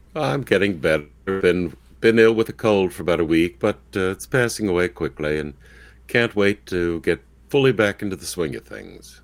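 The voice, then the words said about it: Hoarse voice. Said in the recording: “still got that hoarse throat you're going on there”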